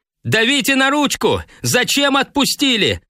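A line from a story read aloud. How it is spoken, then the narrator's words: Yelling, interrupting. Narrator (Russian): заорал он, оборвав торжественное пение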